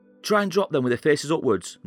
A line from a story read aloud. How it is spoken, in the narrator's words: Norris frantically shouted